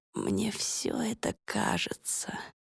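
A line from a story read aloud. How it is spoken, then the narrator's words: Whisper. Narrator (Russian): шептала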